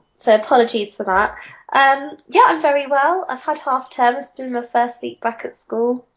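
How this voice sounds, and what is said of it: Nasal, congested voice. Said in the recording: “I'm just recovering from a cold, so I sound a bit nasal.”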